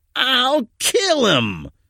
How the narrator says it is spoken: Larry screamed with a bit of panic in his voice

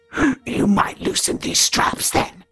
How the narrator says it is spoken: Regan croaked

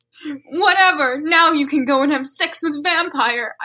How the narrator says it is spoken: I shouted

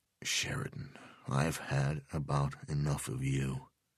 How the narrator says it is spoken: Del Vecchio said quietly

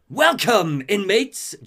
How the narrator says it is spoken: Joker's voice cackles over the speakers

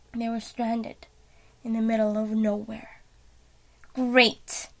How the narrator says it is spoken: Billy groaned

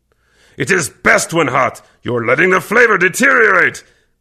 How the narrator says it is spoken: Kervec growled deeply

